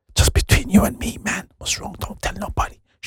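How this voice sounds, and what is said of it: Whispering. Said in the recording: “am I still whispering?”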